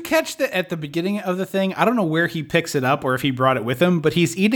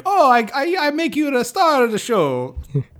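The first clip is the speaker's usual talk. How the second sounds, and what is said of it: Old Italian man accent. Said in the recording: “It's like a little old Italian man”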